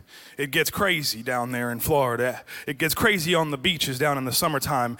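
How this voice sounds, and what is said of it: New Jersey accent. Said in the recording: “I was born in New Jersey, that's the accent”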